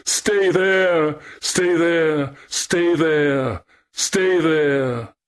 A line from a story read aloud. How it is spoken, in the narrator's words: Echo cried back, weeping to utter it